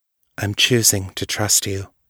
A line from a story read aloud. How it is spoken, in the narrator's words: she said quietly